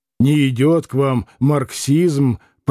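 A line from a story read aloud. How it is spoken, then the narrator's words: Grumbled. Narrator (Russian): проворчал Маракуев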